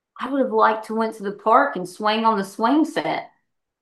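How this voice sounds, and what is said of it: Exaggerated twangy accent. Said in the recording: “I'm using my twang”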